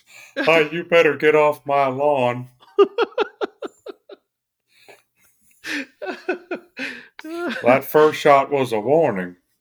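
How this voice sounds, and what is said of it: Southern cartoon-character drawl. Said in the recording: “I'm here in Arkansas, so it might come out more King of the Hillish.”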